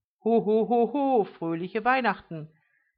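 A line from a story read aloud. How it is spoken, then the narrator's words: Quick hurried call. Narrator (German): rief sie noch schnell hinein, sie hatte Passanten kommen sehen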